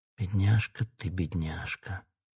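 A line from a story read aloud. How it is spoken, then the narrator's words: Whisper. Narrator (Russian): прошептал он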